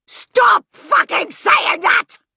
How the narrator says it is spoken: He roared

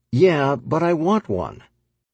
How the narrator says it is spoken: adding in a whiny voice

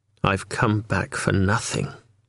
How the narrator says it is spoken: Julian mumbled

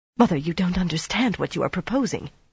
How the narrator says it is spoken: Mirella said breathlessly

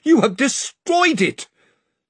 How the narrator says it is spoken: cried Lord Roop

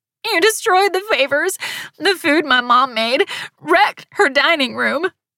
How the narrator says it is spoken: she moaned

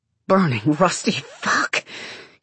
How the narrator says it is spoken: groan, sigh

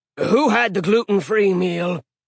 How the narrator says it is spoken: He growled

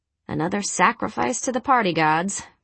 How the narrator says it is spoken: Veronica muttered

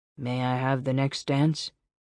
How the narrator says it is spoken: In a dull voice, he asked

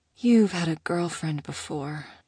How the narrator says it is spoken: she mumbled, swallowing

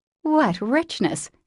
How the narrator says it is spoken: sighed Jo

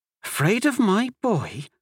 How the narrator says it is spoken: Amelie gasped

